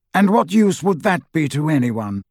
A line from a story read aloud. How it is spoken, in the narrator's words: said Dumbledore coldly